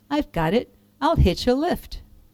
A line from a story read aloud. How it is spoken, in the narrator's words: the tiny sea snail sighed and sniffed and then cried